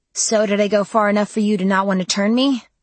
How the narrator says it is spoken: I asked as cheerfully as I could manage

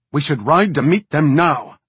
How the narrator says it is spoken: snapped Danaea

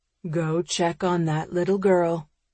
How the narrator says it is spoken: he murmurs

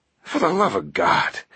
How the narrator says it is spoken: Langdon groaned

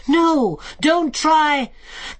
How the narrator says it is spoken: yelling more terrible battle cries

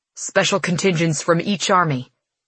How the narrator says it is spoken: he said

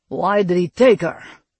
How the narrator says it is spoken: Kostin snarled

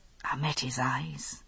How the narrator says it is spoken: he said softly

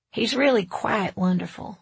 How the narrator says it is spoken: Lester said

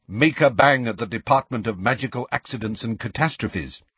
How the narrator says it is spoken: said Hermione sharply

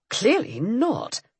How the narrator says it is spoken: he said with a snort

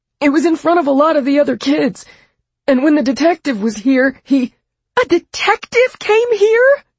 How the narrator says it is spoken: June shrieked

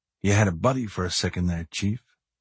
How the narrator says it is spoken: McMurphy whispered

